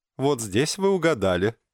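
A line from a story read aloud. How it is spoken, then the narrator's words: Laughing. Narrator (Russian): рассмеялся снова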